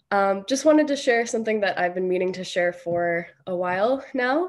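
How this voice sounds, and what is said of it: Congested voice from a cold. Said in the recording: “I've got a bit of a cold,”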